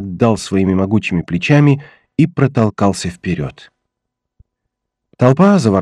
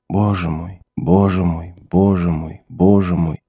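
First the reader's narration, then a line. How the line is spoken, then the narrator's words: Dazed mutter. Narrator (Russian): Том что-то пробормотал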